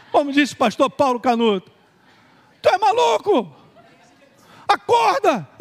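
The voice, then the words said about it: Shouting. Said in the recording (Portuguese): “está gritando”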